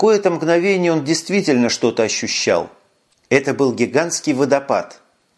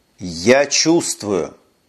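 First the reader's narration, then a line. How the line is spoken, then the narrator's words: Solemn. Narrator (Russian): торжественно сказал он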